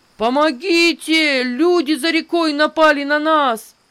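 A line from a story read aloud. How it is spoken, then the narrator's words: Shouting. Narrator (Russian): крикнул он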